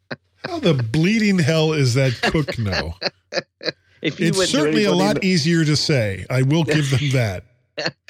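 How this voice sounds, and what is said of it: American accent. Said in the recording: “my American accent”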